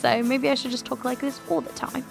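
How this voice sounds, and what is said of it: Put-on British accent. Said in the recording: “everything always sounds like it makes sense in a British accent”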